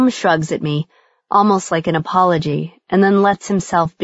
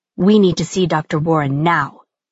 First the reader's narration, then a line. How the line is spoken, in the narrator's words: she hisses